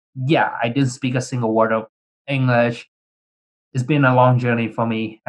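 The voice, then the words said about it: Vietnamese-accented English. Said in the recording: “I'm sure you can probably tell based on my accent and the way how I speak ... I immigrated from Vietnam”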